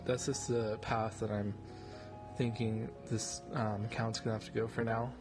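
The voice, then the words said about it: Flat, monotone voice. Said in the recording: “my voice sounds a little monotone”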